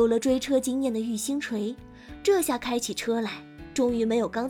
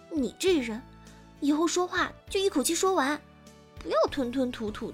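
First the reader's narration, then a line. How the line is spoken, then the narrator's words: Quiet muttering. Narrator (Chinese): 玉星锤小声嘟囔着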